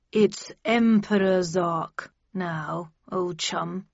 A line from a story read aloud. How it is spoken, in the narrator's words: he said through gritted teeth